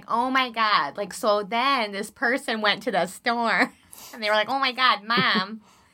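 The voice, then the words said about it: Exaggerated Chicago accent. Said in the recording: “my Chicago accent, the more I drink, the more Chicago comes out”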